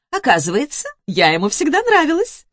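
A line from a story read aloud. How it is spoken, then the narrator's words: Chuckling. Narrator (Russian): хохотнула Наташенька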